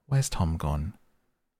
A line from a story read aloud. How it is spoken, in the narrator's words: she'd look around uneasily and say